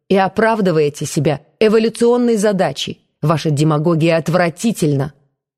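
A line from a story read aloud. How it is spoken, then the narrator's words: Sharp objection. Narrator (Russian): резко возразил Коровкин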